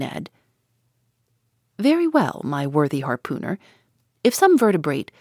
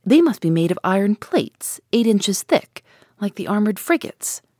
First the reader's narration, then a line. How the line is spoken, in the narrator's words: exclaimed Ned Land